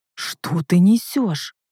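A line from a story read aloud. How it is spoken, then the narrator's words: Through clenched teeth. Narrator (Russian): цежу сквозь зубы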